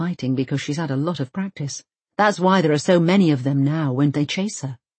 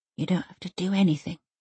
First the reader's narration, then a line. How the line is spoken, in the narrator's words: Elsa mumbles